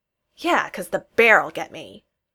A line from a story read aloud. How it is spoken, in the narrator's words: Josh said irritably